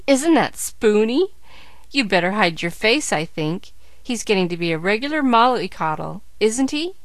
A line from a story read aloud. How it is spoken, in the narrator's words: jeered Joe